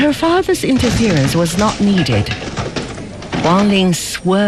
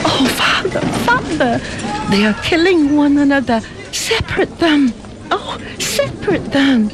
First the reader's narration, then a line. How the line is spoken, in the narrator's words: pleaded Fing Fan